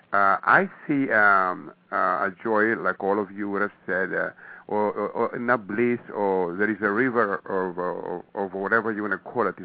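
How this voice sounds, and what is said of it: Greek accent. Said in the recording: “the accent here is Greek”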